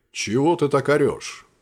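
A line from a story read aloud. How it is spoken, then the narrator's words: Calm reply. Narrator (Russian): спокойно отозвался артефакт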